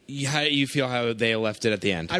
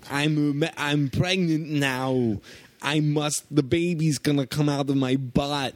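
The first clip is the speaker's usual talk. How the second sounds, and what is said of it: Imitates another person's voice. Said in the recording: “my Arnold impression ... That's a mix of Arnold Schwarzenegger and Steven, or Christopher Walken. ... And a little bit of a half deaf person.”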